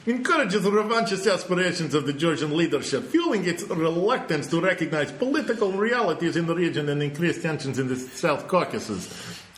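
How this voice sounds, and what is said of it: Put-on accent reading statement. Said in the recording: “I need to do the accent because it's just so perfect”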